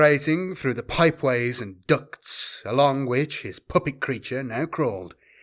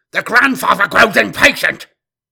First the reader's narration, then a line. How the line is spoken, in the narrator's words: He snapped to his crew